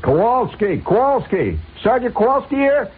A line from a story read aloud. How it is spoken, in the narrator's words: somebody hollers